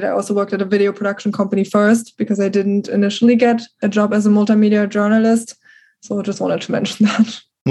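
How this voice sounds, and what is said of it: Very strong foreign accent. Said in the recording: “my accent was very strong. So the accent is something people constantly point out”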